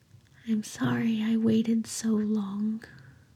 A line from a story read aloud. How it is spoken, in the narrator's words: Aziraphale whispered